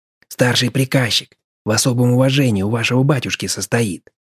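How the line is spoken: Envious whisper in ear. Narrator (Russian): с ноткой зависти шепнул на ухо Федька

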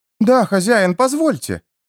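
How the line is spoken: Exclaiming. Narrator (Russian): воскликнула Полли

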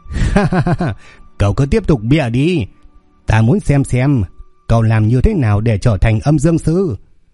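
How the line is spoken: Loud scornful laughing. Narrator (Vietnamese): lão đạo cười lớn, ánh mắt khinh bỉ

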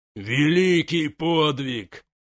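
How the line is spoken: Roaring. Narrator (Russian): взревел Гронк

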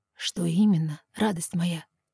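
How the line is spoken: Quiet question. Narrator (Russian): Так же тихо уточняет он

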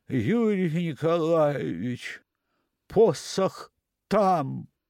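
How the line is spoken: Very quiet, tragic farewell. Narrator (Russian): очень тихо и трагично, как бы прощаясь со мной навсегда, сказал

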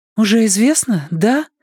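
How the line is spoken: Anxious clarifying question. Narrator (Russian): уточнила она, взволнованно

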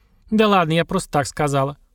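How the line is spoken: Snorting dismissively. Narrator (Russian): фыркнула Маша

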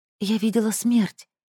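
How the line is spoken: Whispered in ear. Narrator (Russian): шептала ей в ухо Аярту

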